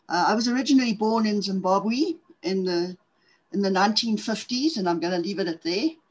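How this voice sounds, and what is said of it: South African accent. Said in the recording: “I'm from South Africa, in case guys haven't figured out on the accent part of things.”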